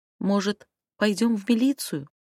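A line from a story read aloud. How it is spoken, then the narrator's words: Timid. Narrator (Russian): робко предложила я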